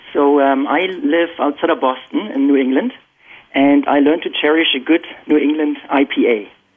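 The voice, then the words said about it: German accent in English. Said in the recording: “I'm born and raised in Germany, and you can probably still detect my accent.”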